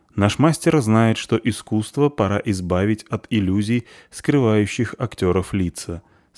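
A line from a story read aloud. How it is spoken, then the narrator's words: Plain. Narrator (Russian): сказал Шензи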